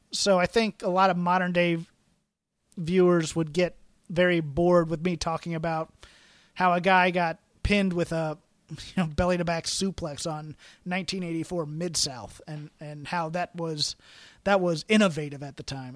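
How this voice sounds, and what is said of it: Strained, fading voice. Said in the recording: “I am losing my voice.”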